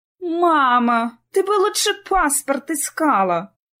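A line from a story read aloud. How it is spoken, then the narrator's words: Groaning. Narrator (Russian): простонала Лидия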